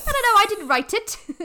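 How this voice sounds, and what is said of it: Put-on Welsh accent. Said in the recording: “that was me trying to do a Welsh accent ... That was good. ... That was excellent, actually.”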